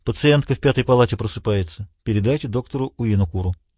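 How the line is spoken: Nurse speaking quietly. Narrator (Russian): Сестра тихо сказала

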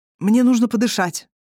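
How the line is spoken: Strained, forced words. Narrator (Russian): выдавил Кир

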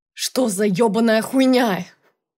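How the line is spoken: Yell. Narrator (Russian): Завопил он

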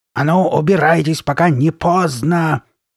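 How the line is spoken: Roaring again. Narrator (Russian): снова взревела Карли Бет

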